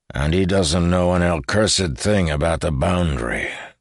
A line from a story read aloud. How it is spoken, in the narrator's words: growled Tayrus